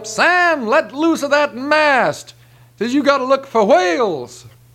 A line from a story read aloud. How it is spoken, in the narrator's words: The captain hollers up